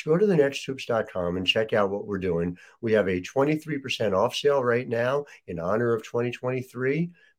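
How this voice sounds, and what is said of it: Voice still recovering, not full. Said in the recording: “my voice is coming back slowly but surely”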